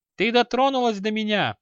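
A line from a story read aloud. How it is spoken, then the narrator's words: Joyful squeal. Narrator (Russian): радостно взвизгнул ягрущик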